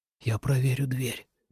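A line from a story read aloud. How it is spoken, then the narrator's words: Whisper. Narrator (Russian): прошептал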